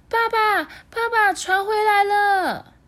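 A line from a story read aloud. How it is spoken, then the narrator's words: Happy shout. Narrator (Chinese): 他开心的大叫说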